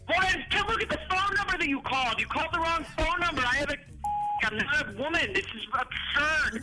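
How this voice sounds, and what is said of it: Yelling angrily. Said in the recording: “Why are you yelling at me?”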